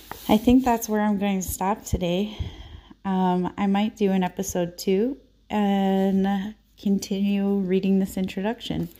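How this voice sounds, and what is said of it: Hoarse, fading voice. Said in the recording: “I'm kind of losing my voice”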